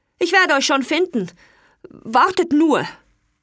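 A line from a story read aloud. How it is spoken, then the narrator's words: Loud. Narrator (German): Er sagte laut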